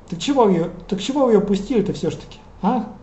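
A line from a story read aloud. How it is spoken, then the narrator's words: Bewildered. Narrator (Russian): Дрю растерянно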